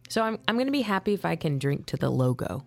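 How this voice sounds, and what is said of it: Darker, tired-sounding voice. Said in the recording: “My voice is a little bit darker because I'm tired.”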